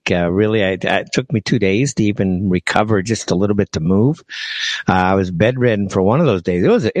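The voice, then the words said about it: Voice sounds a little off. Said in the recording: “my voice sounds a little off, it is. I had a very serious bout of some coughing this week.”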